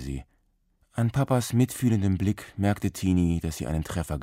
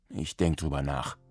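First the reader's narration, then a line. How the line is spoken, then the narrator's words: Mumbled. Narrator (German): nuschelte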